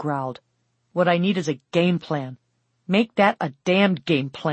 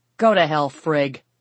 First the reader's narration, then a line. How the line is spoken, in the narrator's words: Stuart growled